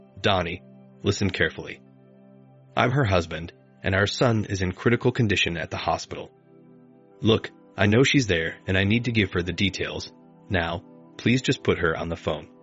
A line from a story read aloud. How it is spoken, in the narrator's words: In an assertive, controlled voice, I said